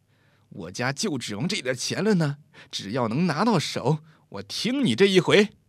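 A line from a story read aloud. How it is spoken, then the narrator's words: Resolute, gritted teeth. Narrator (Chinese): 黑妹咬咬牙说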